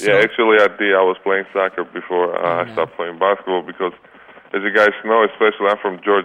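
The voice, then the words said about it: Foreign accent. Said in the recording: “I can detect your accent”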